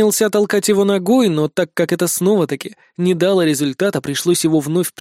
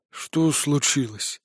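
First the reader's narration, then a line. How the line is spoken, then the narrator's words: Mumbled. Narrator (Russian): наконец промямлил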